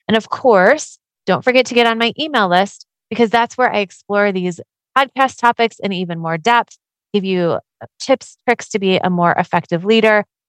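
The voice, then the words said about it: Congested voice from a cold. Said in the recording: “You can probably hear I have a little bit of a cold”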